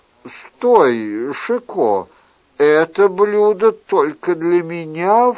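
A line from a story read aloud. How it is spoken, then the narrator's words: Exclamation. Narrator (Russian): вскричал Генрих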